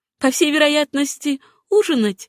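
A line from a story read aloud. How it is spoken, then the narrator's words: Laughing reply. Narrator (Russian): смеясь ответила Сюзанна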